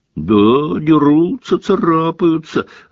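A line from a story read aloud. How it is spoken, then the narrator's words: Gleeful yelling. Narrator (Russian): радостно вопил Пивз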